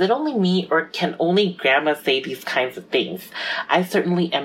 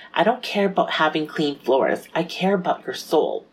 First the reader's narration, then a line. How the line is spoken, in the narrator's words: Grandma calmly said